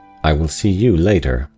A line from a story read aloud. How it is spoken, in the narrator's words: he said, coldly but significantly